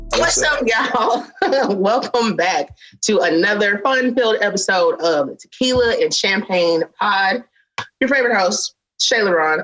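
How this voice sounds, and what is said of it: Sounds out of breath. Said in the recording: “I don't know why I sound like I'm out of breath because I'm literally sitting down ... you did get up, so you know, that's probably why you're tired”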